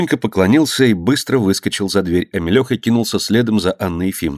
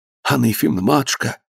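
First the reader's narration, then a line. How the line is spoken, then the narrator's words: Whispering. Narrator (Russian): зашептал он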